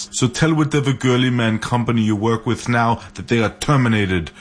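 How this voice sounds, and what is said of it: Celebrity impersonation voice. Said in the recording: “Celebrity impersonations”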